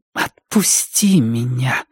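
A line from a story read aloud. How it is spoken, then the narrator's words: Quiet. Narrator (Russian): тихо проговорила Рози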